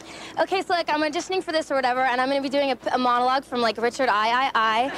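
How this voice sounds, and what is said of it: Valley Girl cheerleader voice. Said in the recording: “my impression of a cheerleader auditioning for a Shakespeare play... recite something impressive in a different voice... I was just doing a Valley Girl voice.”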